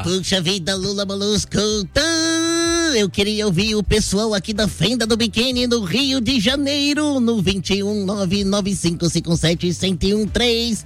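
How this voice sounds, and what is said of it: Cartoon character voice. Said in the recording (Portuguese): “na voz do Bob Esponja”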